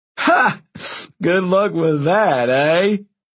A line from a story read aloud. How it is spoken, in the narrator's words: Frank laughed nervously